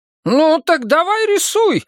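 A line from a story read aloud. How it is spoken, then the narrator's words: Exclaiming. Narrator (Russian): воскликнула кормилица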